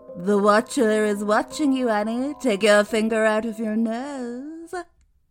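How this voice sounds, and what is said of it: Creepy English-accented character voice. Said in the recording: “that creepy English voice”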